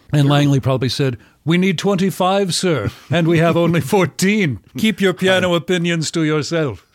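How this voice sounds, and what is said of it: Imitates another person's voice. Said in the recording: “my Langley Collier impression”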